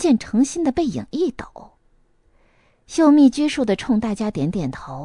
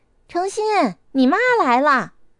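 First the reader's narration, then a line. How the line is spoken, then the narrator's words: Loud. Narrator (Chinese): 孙颖高声地说道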